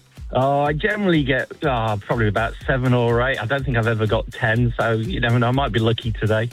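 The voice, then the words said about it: English accent. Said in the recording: “I'm picking by your accent that you haven't always been here ... I'm still never going to lose this English accent”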